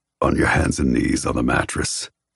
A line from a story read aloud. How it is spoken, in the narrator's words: He growls